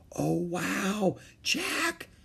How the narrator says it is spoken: Annie whispered

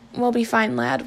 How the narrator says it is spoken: whispered Alf, though his eyes betrayed his misgivings

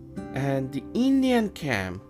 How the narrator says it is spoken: yelled John

